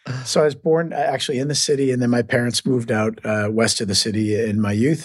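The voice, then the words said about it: Slight Boston accent. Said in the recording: “you'll hear a little Boston accent ... I might roll a few R's and add an A here and there”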